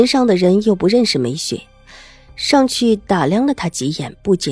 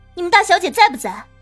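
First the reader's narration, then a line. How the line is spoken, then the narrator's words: Stern, loud. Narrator (Chinese): 梅雪…脸色一板，对走出来的家人大声说道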